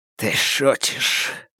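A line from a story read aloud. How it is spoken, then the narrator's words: Gruff mutter. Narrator (Russian): буркнул Фаразар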